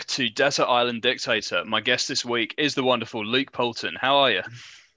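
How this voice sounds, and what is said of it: Radio announcer voice. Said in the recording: “I did a very radio announcer voice.”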